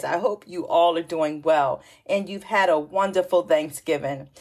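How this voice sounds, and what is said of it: Excited, upbeat voice. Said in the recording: “hear the excitement in my voice?”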